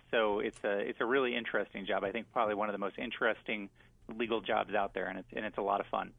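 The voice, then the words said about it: Good radio voice. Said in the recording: “You got a really good radio voice.”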